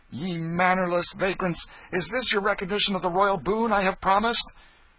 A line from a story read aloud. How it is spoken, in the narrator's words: He said more with angry voice and excited gesture